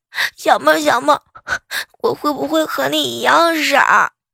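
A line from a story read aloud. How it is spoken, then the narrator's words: Asking while sobbing harder. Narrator (Chinese): 彩彩…哭得更厉害了，一边哭边问我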